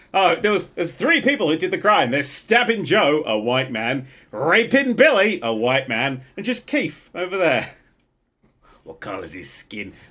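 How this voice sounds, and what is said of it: Imitates an American police officer. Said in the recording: “my impression of the police in America ... American police officer”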